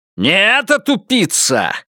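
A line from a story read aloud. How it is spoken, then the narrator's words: Barking snap. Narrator (Russian): рявкнул он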